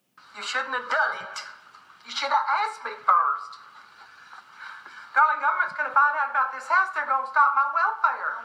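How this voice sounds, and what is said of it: Rural American accent, heavy R. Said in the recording (Chinese): “这就是很典型的美国的乡村地区的人们的口音。嗯，那个 R 的声音非常的浓重，很多的音节和声音的话呢，跟标准美语的这个声音的话呢，也有不少的区别”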